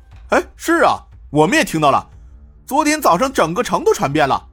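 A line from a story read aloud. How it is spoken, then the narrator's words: Loud, several officials. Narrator (Chinese): 有几个丰都地方官大声说道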